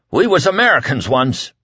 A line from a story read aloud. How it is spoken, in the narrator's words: Whitney cried at last